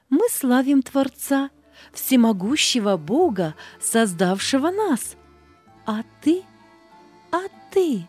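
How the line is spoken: Joyful. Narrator (Russian): Солнышко, травка, птички ей радостно говорили

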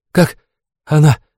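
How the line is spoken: Breathed out. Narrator (Russian): выдохнул Дейн

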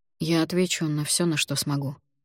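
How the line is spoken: Quiet. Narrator (Russian): негромко произнес он

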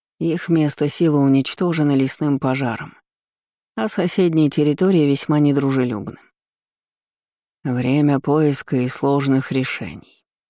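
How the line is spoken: Grim announcement. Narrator (Russian): мрачно объявил Ламбикур

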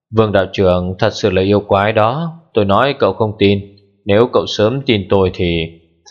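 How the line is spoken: Sighing. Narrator (Vietnamese): Nhàn Phúc Thủy thở dài nói

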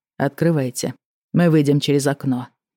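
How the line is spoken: Calm statement. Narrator (Russian): спокойно заявил Рен

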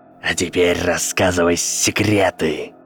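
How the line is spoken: Hissed. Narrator (Russian): прошипел темный лорд

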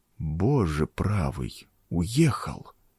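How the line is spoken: Whispered. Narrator (Russian): прошептал он

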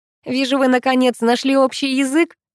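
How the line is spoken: Laughing. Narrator (Russian): рассмеялся Паша

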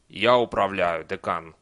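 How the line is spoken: Calm reply. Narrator (Russian): спокойно ответил Чудакули

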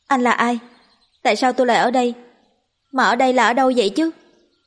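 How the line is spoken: Loud, curious question. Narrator (Vietnamese): Cô không sợ mà chỉ có hơi tò mò, vội nhìn thẳng vào mặt anh ta lớn tiếng hỏi

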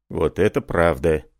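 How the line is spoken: Grumbled. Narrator (Russian): проворчал Сильвен

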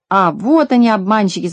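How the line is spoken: Shout from crowd. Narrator (Russian): закричал кто-то в толпе

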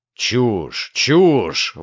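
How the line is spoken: Contemptuous exclamation. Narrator (Russian): воскликнул Гордон с презрением

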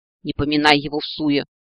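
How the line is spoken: Snapping. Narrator (Russian): огрызнулась правая половина мозга

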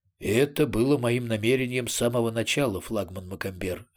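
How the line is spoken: Plain. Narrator (Russian): ответил Арамис

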